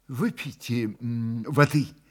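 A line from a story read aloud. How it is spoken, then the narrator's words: Soft patient repetition, investigator. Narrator (Russian): мягко повторил в десятый раз следователь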